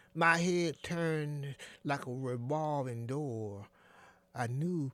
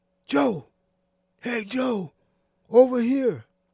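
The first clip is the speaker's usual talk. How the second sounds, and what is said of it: Whispered call. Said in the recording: “I heard a whisper ... the whisper”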